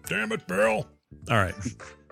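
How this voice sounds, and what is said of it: Imitates another person's voice. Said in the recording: “That was my Francis impression.”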